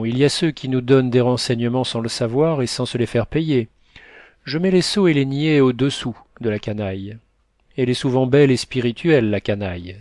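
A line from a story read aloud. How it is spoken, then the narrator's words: Exclaiming. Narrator (French): s'écria Léon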